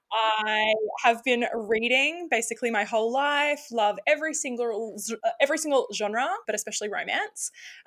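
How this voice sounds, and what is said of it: Australian accent. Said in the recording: “I am Australian, if we can tell from the accent.”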